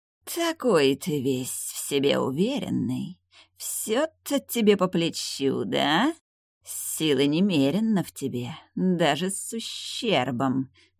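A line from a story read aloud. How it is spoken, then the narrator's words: Hissing, female demon. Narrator (Russian): шипела демоница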